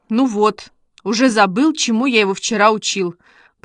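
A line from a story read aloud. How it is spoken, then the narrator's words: Grumbling. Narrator (Russian): проворчал Костя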